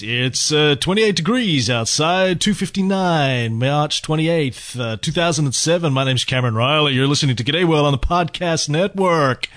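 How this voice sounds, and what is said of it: FM radio announcer voice. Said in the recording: “put on my FM radio voice.”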